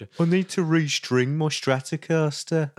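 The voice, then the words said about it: Imitates another person's voice. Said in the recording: “That was a very good impression.”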